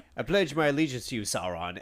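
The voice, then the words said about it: Badly done put-on accent. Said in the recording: “I don't know what that accent. ... I'm terrible with these.”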